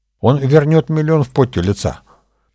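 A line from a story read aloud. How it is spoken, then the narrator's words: Spoke quickly. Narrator (Russian): быстро проговорила Нюта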